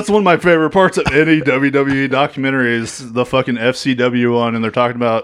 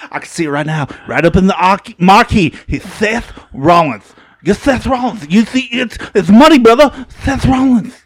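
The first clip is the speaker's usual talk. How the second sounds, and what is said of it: Imitates another person's voice. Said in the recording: “good Dusty Rhodes impression.”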